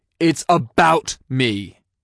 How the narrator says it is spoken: he snapped

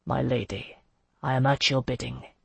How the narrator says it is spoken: he said softly

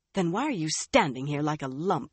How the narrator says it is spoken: she asked herself angrily

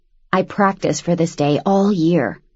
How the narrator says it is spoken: he whispered

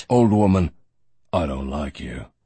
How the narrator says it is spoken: Barron said coldly

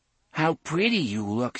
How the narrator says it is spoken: sighed Thorin

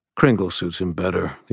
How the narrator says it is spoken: the Earl King muttered

